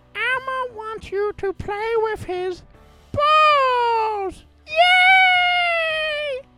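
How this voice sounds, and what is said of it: Elmo impression. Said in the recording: “I think I'm getting pretty good at this Elmo impression.”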